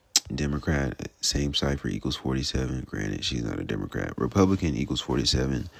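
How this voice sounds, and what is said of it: Very fast speech. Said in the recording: “I'm sorry, I'm talking so fast.”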